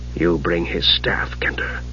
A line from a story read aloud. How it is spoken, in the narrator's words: Raceland said in a low voice